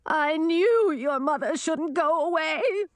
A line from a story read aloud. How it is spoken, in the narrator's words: the queen wailed